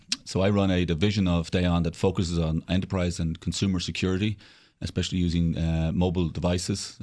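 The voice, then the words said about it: Irish accent. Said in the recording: “as you can probably tell by my accent, I'm originally Irish”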